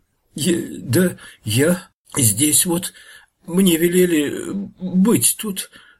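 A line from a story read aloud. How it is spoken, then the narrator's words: Frightened stammering mumble. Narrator (Russian): заикаясь от страха, забормотал подлешек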